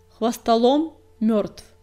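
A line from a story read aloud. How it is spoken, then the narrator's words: Loud announcement. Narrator (Russian): громко объявила синяя звезда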